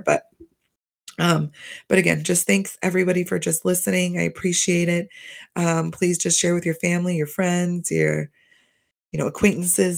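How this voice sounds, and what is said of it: Slightly hoarse voice. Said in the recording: “my voice is going a little hoarse”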